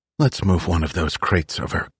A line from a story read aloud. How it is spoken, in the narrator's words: Kate whispered